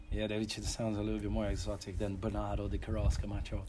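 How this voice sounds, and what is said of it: Portuguese accent. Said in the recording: “in the Portuguese accent ... I think any ladies listening have just fallen in love with that accent”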